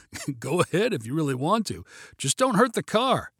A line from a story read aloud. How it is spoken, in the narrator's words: chuckled and said